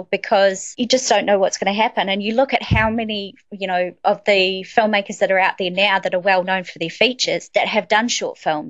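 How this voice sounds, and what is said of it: Cool-sounding accent. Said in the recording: “You got the cool accent.”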